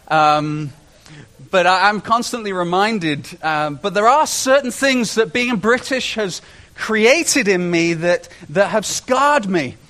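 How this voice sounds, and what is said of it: British English accent. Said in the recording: “I love being British. ... Oh, I love your accent ... You like my accent.”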